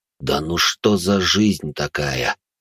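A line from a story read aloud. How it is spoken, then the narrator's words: Sighing. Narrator (Russian): вздохнул Хоук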